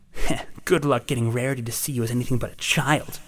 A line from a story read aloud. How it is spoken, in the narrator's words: snarled the voice, its tone growing dark